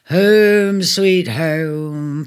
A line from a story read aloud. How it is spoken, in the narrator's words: purred Leo